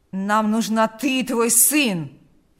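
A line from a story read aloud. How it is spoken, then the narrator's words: Growling. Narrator (Russian): прорычал Карп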